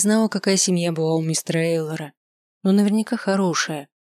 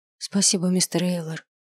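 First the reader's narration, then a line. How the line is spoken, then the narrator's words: Quiet. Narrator (Russian): сказал я тихо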